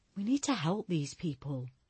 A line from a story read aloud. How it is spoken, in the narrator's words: Julia whispered to Barker